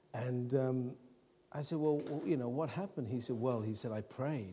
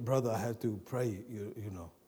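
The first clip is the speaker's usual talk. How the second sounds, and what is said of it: Bad Icelandic accent. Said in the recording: “Iceland accent. You know it's not a good accent when you have to tell the people where.”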